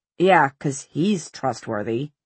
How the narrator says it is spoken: muttered Simon

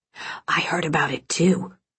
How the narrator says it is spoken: whispered another

